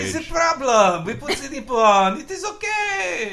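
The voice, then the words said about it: Put-on French accent. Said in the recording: “that was my French accent. ... Sound like the French chef in Little Mermaid.”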